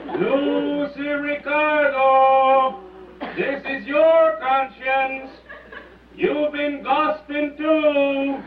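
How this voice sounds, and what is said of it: Man speaking with an accent. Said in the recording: “My conscience has an accent.”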